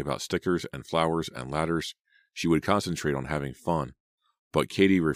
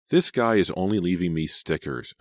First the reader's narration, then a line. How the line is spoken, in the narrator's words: Selena exclaimed